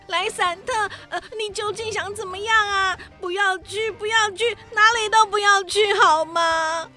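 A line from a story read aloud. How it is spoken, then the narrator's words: Panicked pleading. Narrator (Chinese): 黑美雅惊慌失措地哀求着莱散特说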